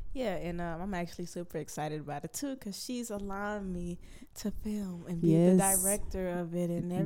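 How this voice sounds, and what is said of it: Stuffy, congested voice. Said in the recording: “excuse me for my tone of voice because I am a bit stuffy ... I'm a little sick”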